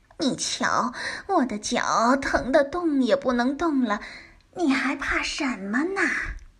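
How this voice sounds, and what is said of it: Kind, gentle, soft voice. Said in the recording (Chinese): “和蔼可亲、温柔的声音”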